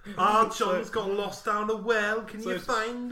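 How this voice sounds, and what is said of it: Put-on Scouse accent. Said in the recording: “Rita the Scouser? ... she calls in the Scouse accent”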